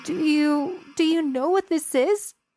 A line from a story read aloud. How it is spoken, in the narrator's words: I asked in a broken voice